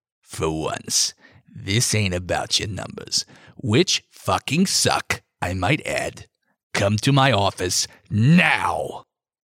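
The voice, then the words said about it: Hoarse, gravelly character voice. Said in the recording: “hoarse, gravelly voice”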